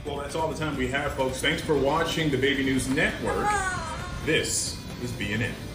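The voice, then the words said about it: Enunciated news anchor voice. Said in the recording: “they're really good at that news voice. They enunciate like motherfuckers.”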